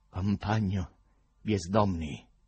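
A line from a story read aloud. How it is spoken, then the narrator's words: Rally speech voice. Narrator (Italian): disse la faccia con una voce da comizio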